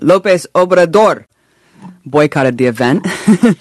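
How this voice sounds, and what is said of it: Put-on Spanish accent. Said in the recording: “I'm going to try my Spanish accent.”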